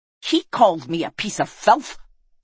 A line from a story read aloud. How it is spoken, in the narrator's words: snarled Kars